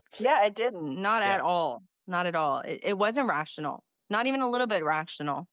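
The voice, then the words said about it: Louisiana Southern accent. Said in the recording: “I live in Louisiana. ... Yeah, I could tell. I love your accent.”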